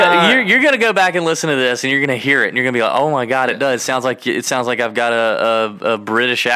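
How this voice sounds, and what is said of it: Usual voice. Nothing is said of it.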